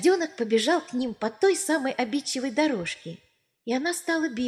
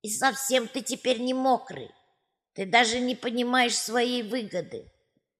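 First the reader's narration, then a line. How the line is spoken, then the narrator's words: Envious creaking. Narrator (Russian): Завистливо проскрипели качели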